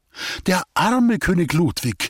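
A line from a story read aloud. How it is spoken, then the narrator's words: Sudden sigh. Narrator (German): seufzte Agnes plötzlich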